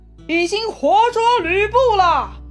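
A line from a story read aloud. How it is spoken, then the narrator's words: Shouting from wall. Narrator (Chinese): 魏续在城头上大喊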